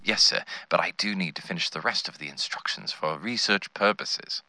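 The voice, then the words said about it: English accent. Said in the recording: “I was enchanted by his English accent.”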